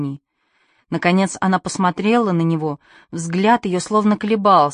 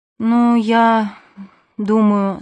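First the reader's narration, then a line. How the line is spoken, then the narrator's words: Tired. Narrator (Russian): сказала она устало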